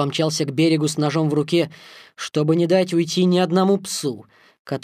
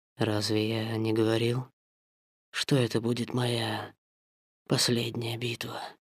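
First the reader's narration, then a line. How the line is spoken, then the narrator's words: Whisper. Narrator (Russian): прошептал Акелла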